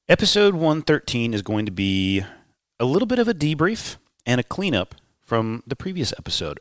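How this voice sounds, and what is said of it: Nasal, congested voice. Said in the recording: “I'm a little bit sick and my voice sounds a little bit nasally.”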